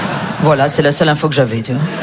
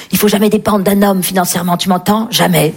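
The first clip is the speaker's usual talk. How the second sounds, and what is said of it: Whispered quote of mother. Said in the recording (French): “en chuchotant dans la cuisine”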